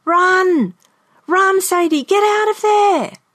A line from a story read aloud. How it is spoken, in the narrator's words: I screamed